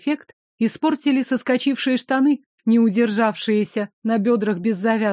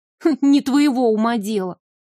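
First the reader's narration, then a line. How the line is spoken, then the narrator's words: Snorted. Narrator (Russian): фыркнула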